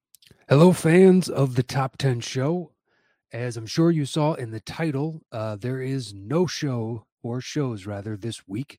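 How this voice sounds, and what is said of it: Sick, strained voice. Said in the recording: “tell from my voice,... I have been sick as a dog over the past few days... this is as good as my voice has sounded in 5 days.”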